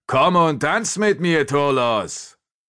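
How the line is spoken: Exclaiming. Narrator (German): rief er aus

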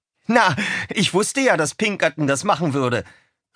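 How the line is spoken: Triumphant call. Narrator (German): rief er triumphierend

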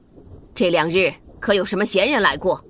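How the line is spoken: Angry question. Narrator (Chinese): 吕雉怒问红茹

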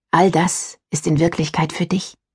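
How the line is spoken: Mother's whisper. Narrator (German): flüsterte meine Mom immer

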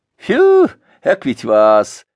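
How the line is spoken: Whistle then loud laughter. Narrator (Russian): присвистнул и захохотал

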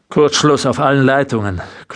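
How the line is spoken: Growled. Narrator (German): knurrte er

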